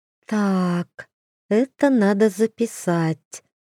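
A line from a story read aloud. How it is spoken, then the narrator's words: Girl purring. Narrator (Russian): мурлыкнула девушка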